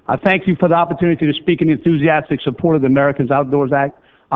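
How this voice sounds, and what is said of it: Louisiana accent. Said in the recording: “I bring greetings to you from the great state of Louisiana ... my accent will give you no doubt as to where I come from”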